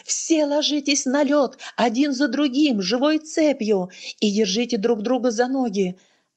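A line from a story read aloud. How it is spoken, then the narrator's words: Shouting. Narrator (Russian): он закричал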